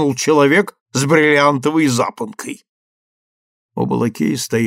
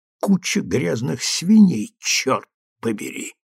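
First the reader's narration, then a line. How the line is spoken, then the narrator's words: Old man's hiss. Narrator (Russian): прошипел старый лакей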